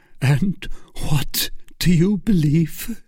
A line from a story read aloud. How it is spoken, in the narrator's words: His voice was stifled by sobs